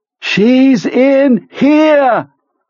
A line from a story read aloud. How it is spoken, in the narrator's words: Pete screams deliriously